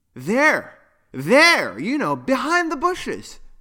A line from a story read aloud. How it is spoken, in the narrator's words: exclaimed Poppy